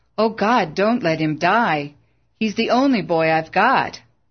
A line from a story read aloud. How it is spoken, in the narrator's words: In terror, Bill cried out